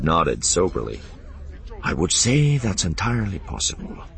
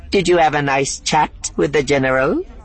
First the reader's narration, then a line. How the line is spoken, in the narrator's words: He asked brightly